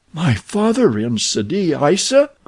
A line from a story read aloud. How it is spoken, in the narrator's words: cried the amazed girl